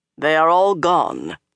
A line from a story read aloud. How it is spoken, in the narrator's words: Lan announced grimly